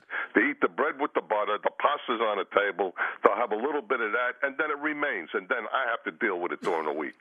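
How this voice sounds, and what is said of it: Attractive accented male voice. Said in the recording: “such a sexy voice ... I love that accent ... I could listen to you talk all day”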